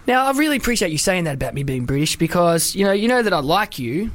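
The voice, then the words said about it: Australian accent. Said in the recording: “I know I got the accent of an Aussie, but I am English”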